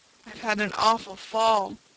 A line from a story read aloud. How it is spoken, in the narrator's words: he moaned finally